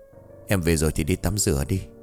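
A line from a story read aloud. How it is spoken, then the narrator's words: Whispered reply. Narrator (Vietnamese): Cường thì thầm đáp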